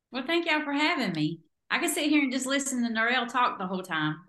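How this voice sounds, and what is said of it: Southern US twang. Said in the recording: “You like my twang? ... accent central today”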